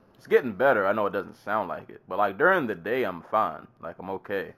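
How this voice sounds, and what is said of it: Slightly off, congested sick voice. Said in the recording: “if my voice sounds a bit off... I'm still sick... I get congested”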